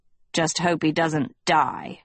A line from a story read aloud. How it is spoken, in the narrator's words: Hester growled